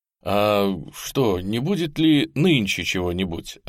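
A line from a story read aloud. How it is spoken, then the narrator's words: Timid question. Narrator (Russian): робко спросил Михайлов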